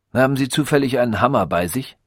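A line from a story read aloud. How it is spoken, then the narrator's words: Plain. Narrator (German): fragte er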